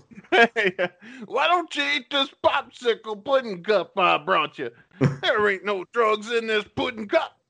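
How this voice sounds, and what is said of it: Imitates another person's voice. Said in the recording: “my Bill Cosby impression”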